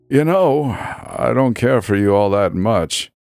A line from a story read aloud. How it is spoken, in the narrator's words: he sighed